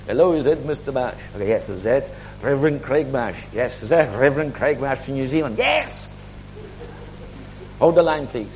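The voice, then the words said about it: Sing-song African accent. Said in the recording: “there's this African singy-songy. I can't even try to do the accent for you.”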